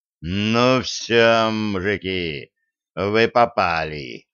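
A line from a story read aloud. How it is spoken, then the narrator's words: Growled. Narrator (Russian): зарычал Денис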